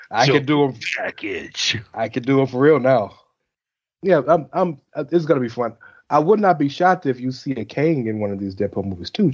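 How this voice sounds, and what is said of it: Deepened, strained low voice. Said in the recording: “Breathing treatments will be taken as soon as the shit is over ... my voice has gotten deeper as we've gone on the show ... Barry White pretty soon”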